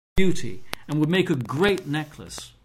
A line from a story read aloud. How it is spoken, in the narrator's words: she gasped